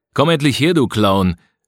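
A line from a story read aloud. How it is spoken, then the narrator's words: Called out. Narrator (German): rief Siebels in Richtung Till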